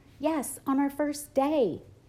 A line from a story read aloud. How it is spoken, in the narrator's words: I yelled